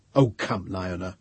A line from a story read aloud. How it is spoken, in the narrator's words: said Brano impatiently